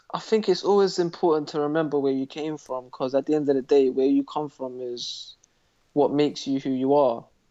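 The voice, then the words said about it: North London accent. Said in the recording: “North London ... this is the accent I use”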